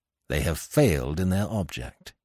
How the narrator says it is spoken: he added grimly

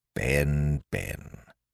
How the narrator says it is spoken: murmured Silver

